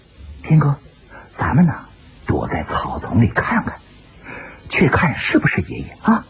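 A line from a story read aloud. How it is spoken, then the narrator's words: Soft. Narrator (Chinese): 叮当轻声的对石破天说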